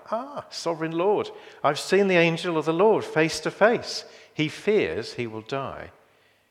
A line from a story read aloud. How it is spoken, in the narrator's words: exclaims with horror